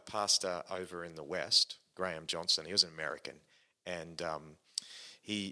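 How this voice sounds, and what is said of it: Usual voice. Nothing is said of it.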